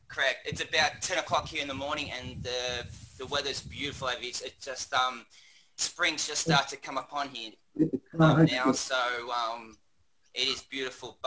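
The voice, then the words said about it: Australian accent. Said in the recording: “I'm from Australia ... I could kind of tell that by your accent.”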